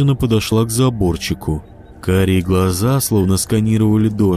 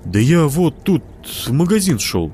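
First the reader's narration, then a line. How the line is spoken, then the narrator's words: Strained forced words. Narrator (Russian): выдавил Костик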